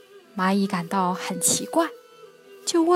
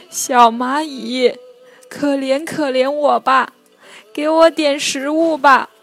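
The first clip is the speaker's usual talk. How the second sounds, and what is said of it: Trembling, pleading voice. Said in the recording (Chinese): “用颤抖的声音说”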